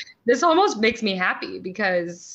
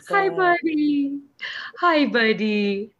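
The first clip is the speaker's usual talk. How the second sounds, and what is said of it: Cooing baby-talk voice. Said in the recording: “baby voice”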